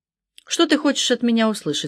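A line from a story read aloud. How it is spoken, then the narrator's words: Plain. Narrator (Russian): спросила она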